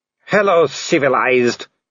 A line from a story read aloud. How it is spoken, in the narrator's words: he growled